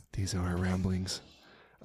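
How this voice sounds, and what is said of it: Quiet, soft radio-style voice. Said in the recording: “I really like talking like this. This isn't my normal voice... if I can just talk really quiet like this, I feel like I'm going to have a really cool sounding voice. Like this is a radio voice”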